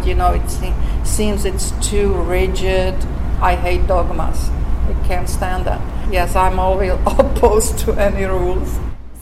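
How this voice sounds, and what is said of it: Thick Czech accent. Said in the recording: “You may have noticed her thick accent. ... escaped from communist Czechoslovakia”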